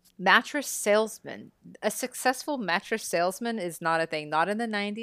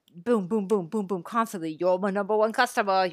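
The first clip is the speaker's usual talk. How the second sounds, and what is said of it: Arnold Schwarzenegger impression. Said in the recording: “That's my Arnold.”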